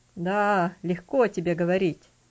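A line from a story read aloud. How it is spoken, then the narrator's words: Sad. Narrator (Russian): печально сказал Винзенс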